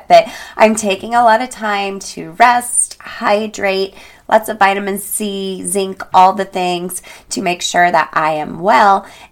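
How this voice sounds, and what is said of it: Hoarse, fading voice. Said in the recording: “Excuse my voice. I'm losing my voice. ... I was battling a little bit of a severe head cold last week and it just hasn't gone away completely yet.”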